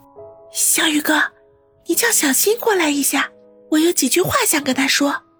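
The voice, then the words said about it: Soft, quiet voice. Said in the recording (Chinese): “小声地说道”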